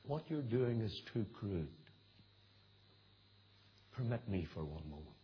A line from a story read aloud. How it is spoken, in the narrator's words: the devil, in disgust, whispered to the demons